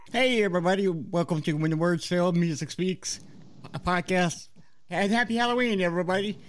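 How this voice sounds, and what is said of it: Voice like Scooter from the Muppets. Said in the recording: “my voice sounds like Scooter from the Muppets”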